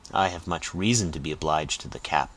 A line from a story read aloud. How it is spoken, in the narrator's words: said Mason dryly